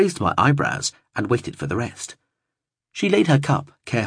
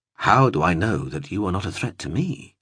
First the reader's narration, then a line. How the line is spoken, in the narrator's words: I replied